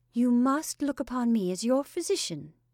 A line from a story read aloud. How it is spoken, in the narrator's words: she said cheerfully